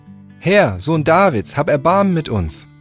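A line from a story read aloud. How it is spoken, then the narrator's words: Loud calling. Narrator (German): riefen laut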